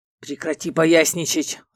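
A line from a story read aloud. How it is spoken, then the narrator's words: Growled. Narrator (Russian): рыкнул Эрго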